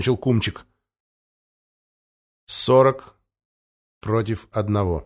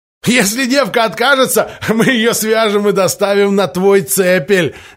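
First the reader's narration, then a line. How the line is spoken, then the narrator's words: Laughing. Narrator (Russian): рассмеялся Майер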